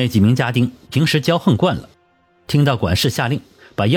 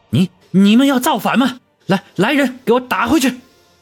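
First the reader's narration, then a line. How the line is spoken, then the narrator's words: Hoarse shout. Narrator (Chinese): 捂着腮帮子，嘶声的喊道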